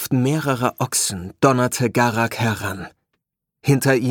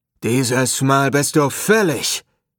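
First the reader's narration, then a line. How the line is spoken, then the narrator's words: Deep booming roar. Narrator (German): brüllte Garak, die Stimme so tief wie ein Horn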